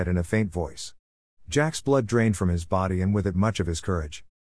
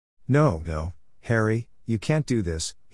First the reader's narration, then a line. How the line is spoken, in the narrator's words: said firmly but in a shaking voice